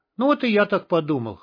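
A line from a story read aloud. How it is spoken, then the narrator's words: Serious snort. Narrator (Russian): хмыкнул Борг, оставаясь при этом по-прежнему серьезным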